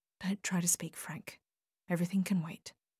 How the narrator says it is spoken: She leaned down to him and whispered close to his face

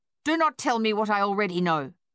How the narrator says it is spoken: she snapped

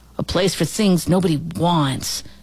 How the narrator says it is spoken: Jody answered

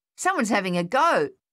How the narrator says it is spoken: Thaddeus yelled

